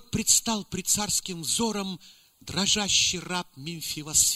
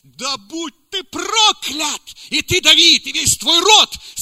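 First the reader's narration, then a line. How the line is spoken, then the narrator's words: Furious yelling. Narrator (Russian): тот заорал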